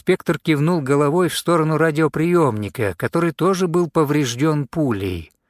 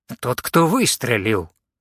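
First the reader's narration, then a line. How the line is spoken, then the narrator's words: Grumbling inspector. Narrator (Russian): проворчал инспектор Ормисбай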